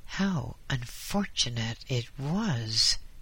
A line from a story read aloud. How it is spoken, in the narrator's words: he muttered to himself